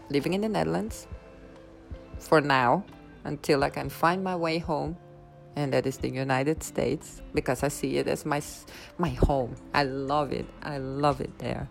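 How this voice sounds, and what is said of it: Dutch accent in English. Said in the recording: “I wanted to apologize for my accent as I am not an American. I'm Dutch ... that is the accent that you hear”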